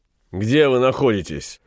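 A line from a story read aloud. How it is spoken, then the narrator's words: Mocking question. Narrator (Russian): насмешливо спросил Ван Конат, услышав ее тревожный голос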